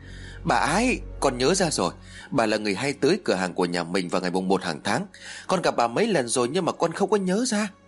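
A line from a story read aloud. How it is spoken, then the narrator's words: Excited child's cry. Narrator (Vietnamese): Thằng Huy lập tức reo lên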